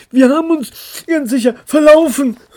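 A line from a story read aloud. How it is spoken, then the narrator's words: Muffled whining. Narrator (German): jammerte Pellini, dessen Stimme von Ilianas Hut kommen musste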